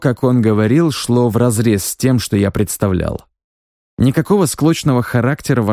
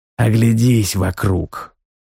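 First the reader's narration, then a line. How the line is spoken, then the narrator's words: Tired. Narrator (Russian): сказал герцог устало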